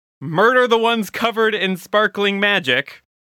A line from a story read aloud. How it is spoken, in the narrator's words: yell back to Forbergorf and say